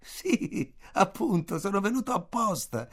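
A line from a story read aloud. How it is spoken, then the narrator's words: Loud laughing reply. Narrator (Italian): risposi ridendo forte, come se avesse dovuto capirlo fin dal primo momento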